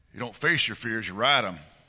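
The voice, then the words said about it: Put-on Southern drawl. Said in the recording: “Southern drawl, it just makes everything better. ... That was pretty good, wasn't it?”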